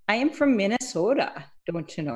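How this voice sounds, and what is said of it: Put-on Minnesota accent. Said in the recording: “You never noticed the accent? ... I'm just kidding. I put it on. I like to put it on.”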